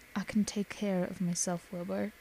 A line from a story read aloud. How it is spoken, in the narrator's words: he said softly